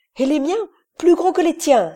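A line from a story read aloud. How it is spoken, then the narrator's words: Exclaiming. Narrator (French): s'écriait Iverson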